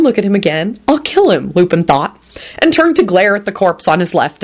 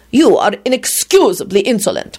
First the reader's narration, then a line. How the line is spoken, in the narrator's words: Radu spat out angrily